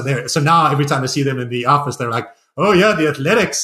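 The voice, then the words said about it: Mixed South African-American accent. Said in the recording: “mixed South African American accent ... my South African accent ... My horrible hybrid accent”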